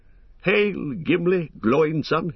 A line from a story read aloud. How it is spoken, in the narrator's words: he cried